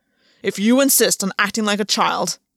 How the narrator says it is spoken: Gwen snarled

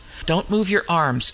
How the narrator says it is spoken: exclaimed McClellan sharply

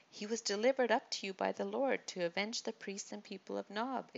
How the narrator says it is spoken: exclaimed Azahel

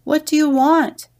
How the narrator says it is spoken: Hosh Makaka called out

